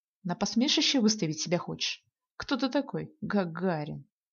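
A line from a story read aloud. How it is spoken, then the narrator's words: Snide, syllable by syllable. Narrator (Russian): Ехидно по слогам произнес он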